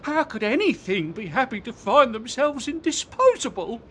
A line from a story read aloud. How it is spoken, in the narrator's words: said Comb, breaking into sobs